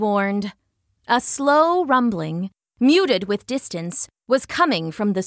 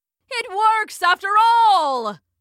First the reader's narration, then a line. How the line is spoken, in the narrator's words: shouted Professor C